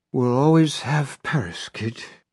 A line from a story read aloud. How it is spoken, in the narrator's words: Holly says in a Bogart drawl